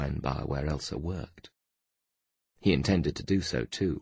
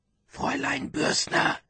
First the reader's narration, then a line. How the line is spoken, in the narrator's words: Feeling helpless, and because there was no time to lose, he whispered through the crack of the door